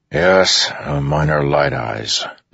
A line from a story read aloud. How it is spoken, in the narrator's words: Dalinar said, sighing